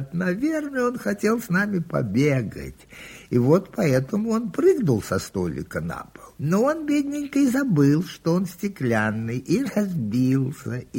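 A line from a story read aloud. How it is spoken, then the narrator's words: Laughing children. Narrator (Russian): Дети засмеялись и говорят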